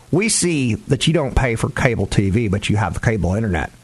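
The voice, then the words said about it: Put-on Texas accent. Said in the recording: “that's my impression of Texas”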